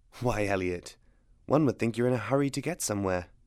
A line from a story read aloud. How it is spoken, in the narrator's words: she murmured, humor in her eyes